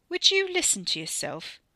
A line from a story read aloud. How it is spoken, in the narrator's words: Ricky's sneer was audible